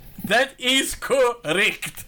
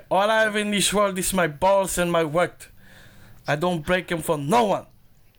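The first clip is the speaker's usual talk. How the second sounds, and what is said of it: Imitates a movie gangster's accent. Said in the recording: “just based on your accent, it could be Scarface”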